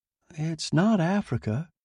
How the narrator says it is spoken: said breathlessly

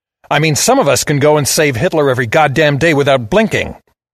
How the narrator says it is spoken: I snarled

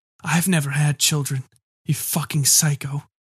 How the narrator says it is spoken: rasped

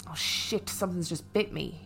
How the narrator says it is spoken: moaned

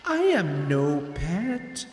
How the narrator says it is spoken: she said, her voice seductive and sweet

